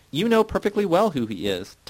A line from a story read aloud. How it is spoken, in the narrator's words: Titus said indignantly